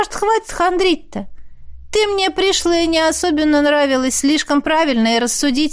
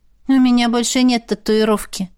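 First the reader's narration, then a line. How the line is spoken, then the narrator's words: Gloomy reminder. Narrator (Russian): мрачно напомнила я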